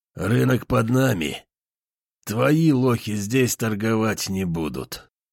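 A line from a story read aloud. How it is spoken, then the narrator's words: Smirking. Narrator (Russian): говорит Сиплый с кривой усмешкой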